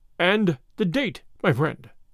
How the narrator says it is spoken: said Number One

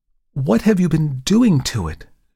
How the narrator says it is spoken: she exclaimed

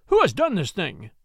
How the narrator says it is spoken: he cried

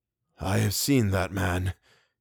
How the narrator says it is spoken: he began in a dry whisper

